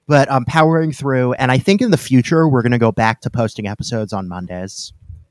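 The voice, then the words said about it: Sick, slightly rough voice. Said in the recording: “I'm a little sick. I had just a weird thing where I just had a horrific cough ... I'm still a little sick. You'll be able to hear it. My voice isn't quite as good as it usually is”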